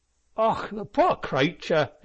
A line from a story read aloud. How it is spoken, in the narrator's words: exclaimed Paddy Flinders with a look of undone commiseration